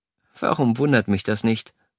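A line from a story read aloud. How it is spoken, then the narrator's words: Sharp murmur. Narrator (German): murmelte sie spitz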